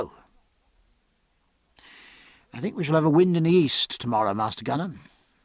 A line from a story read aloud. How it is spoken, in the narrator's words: said Jack, so quietly that the gunner stared